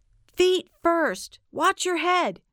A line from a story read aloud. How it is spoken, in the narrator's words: shouted